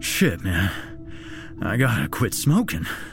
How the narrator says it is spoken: Jack stated in between gasps for air

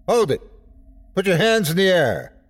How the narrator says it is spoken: The chief yelled out

